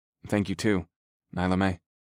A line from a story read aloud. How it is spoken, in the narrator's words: I said in a quiet voice